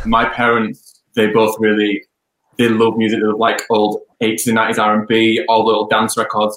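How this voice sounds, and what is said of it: Leeds Yorkshire English accent. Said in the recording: “Where is the accent from, please? ... I'm originally from Leeds”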